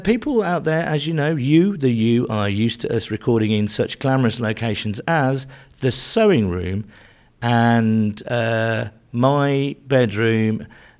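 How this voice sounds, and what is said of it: Hoarse, worn-out voice. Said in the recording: “My voice is shot to bits”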